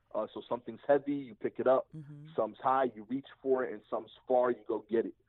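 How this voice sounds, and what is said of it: Slightly thick accent. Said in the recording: “my accent is a little thick, ... the subtitles kept saying fall, but yeah, it's far.”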